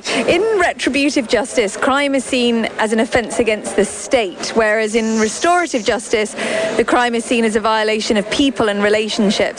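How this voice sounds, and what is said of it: British accent. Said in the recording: “I love your British accent”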